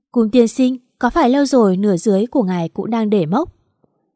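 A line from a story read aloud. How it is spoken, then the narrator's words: Laughing loudly. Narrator (Vietnamese): Mạt Mạt nói rồi cười to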